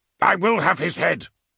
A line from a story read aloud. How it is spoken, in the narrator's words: Abaddon snapped